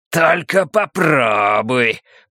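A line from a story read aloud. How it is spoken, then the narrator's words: Growled. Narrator (Russian): прорычал Демарко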